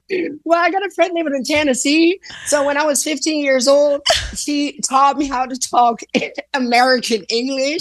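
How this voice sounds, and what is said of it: Southern American accent. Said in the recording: “do you have a Southern accent?”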